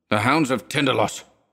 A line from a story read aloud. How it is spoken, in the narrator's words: he muttered